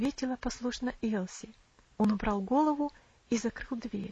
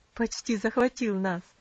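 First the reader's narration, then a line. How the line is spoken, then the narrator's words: Laughing aunt. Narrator (Russian): засмеялась тетушка Хлоя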